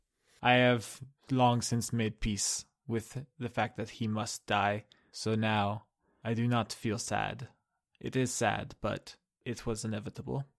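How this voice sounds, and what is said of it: Put-on Russian accent. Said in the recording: “I had to get the Russian accent back.”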